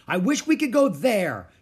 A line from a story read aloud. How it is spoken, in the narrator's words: she shouted